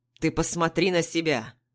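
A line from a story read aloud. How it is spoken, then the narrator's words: Irritated snort. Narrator (Russian): Отец раздраженно фыркает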